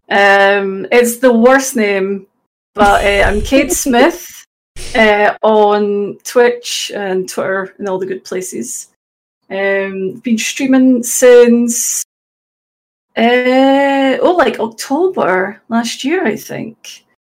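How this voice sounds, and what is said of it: Scottish accent. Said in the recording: “I'm from Glasgow. Probably tell from the accent, although it's not like a Glaswegian accent, you know, it's a Scottish accent.”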